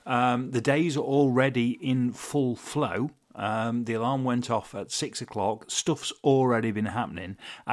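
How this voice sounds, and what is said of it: Giddy, excited voice. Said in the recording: “As you can probably tell from my voice, I'm quite giddy”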